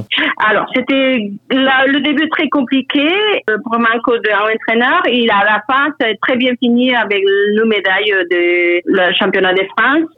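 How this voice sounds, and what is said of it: Speaks French with an accent. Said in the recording (French): “désolé mon accent”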